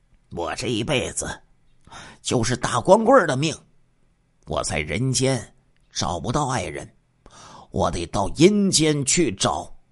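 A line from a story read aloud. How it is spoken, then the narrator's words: Sighing. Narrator (Chinese): 他叹息说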